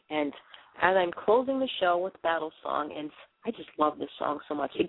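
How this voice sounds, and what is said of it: Boston accent. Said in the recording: “a girl with a funny Boston accent”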